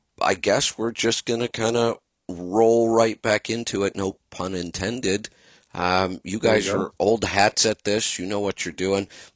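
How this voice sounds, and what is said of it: Hoarse, strained worn-out voice. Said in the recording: “My voice is still shot from the truck show. It's been a week. ... And I haven't recovered yet. My throat's sore. My voice isn't doing so good.”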